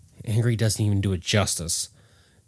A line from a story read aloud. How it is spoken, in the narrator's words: Jack mumbled under his breath